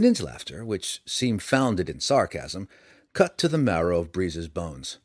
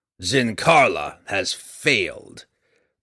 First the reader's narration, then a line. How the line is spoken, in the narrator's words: Breeza growled